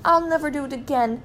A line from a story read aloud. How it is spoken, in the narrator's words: cried Mr